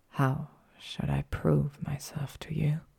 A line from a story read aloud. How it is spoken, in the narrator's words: He whispered